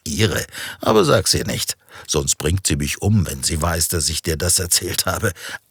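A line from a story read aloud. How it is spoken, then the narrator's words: Answering, then laughing. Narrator (German): antwortete Christian und beide lachten wieder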